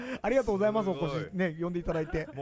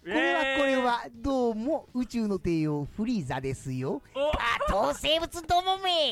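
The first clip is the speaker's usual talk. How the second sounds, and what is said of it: Imitates the cartoon villain Frieza. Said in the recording (Japanese): “フリーザのモノマネ”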